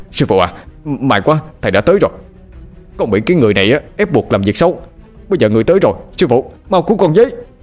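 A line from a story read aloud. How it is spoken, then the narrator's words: Shouting while fighting. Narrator (Vietnamese): Bằng vừa đánh mà hét lên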